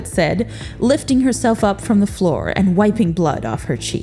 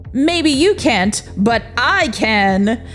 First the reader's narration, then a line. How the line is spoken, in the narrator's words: Samson shouted at her